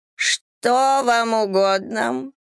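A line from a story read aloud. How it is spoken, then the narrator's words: Creaky voice. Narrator (Russian): проскрипела дама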